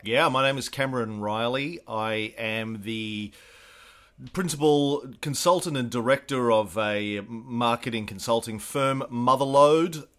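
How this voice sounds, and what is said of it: Australian accent. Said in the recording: “That explains the accent. ... that explains definitely the accent ... the Australia thing”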